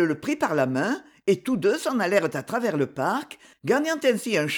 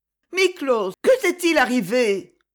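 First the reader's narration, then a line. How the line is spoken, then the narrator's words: Worried exclamation. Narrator (French): s'écria-t-elle avec inquiétude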